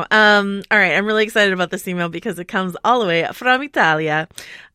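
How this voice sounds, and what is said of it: Put-on Italian accent. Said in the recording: “I apologize to all of Italy for that accent.”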